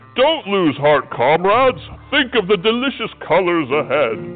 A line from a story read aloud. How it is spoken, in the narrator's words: When the climbing became difficult, Yellow roared